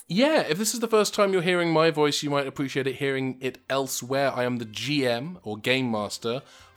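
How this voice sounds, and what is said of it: English accent. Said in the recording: “your wonderful English accent”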